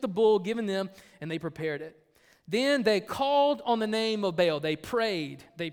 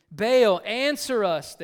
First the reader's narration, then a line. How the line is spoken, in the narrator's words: they shouted